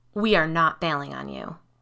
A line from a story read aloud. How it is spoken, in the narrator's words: Tyler said in a firm voice